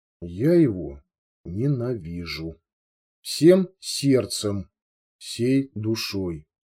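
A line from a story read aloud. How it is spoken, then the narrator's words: Very quiet, distinct, clear. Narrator (Russian): тихо, очень тихо, но раздельно и четко произнесла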